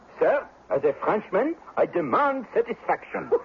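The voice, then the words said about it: French accent. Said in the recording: “Cut the accent. ... Are you really French?”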